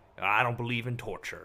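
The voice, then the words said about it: Imitates another person's voice. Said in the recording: “I don't know if that's a McCain accent”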